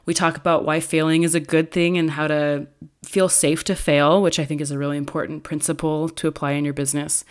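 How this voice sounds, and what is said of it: Low, raspy sick voice. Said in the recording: “I was sick at the time we recorded this, so I apologize for my low and raspy voice”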